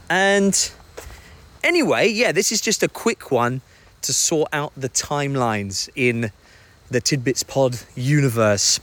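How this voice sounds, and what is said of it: Slightly croaky, hoarse voice. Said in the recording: “You probably hear it in my voice. I'm a little bit croaky, been singing”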